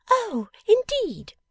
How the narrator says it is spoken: cried Jenny

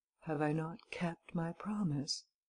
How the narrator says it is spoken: He repeated in a calm, soft voice

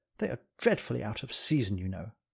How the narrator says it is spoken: he began murmuring affectedly into the hush

